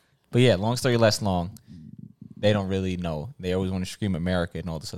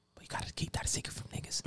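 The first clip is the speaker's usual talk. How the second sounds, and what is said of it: Whispering. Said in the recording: “whispering”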